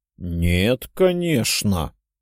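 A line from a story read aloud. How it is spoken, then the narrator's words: Cautious drawl. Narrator (Russian): протянул я, поняв, что мог обидеть гиперборейца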